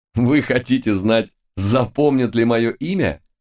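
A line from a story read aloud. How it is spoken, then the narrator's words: Hearty laugh. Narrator (Russian): От души рассмеялся Лис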